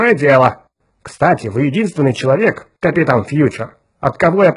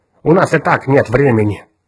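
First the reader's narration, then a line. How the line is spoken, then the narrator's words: Mournful sigh. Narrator (Russian): Кертис Ньютон скорбно вздохнул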